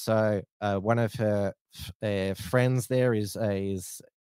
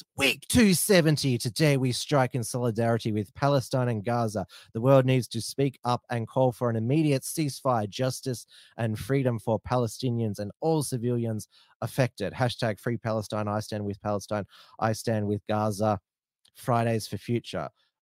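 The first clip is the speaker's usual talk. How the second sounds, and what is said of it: Impression of Greta Thunberg. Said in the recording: “I'll try to do my Greta voice.”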